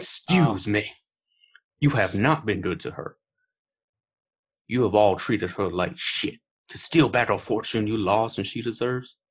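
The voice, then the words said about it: Imitates a film character's accent. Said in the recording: “It's also Benoit Blanc. I might try. Uh, I, guess I'll do the accent”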